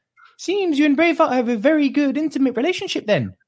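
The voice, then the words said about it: Taika Waititi's Korg accent impression. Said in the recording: “you've got to imagine me saying this with the Taika Waititi Korg accent”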